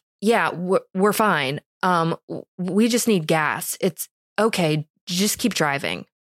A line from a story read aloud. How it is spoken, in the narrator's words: He stutters back